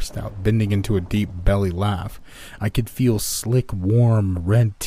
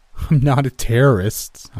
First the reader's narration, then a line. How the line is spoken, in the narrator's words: laughed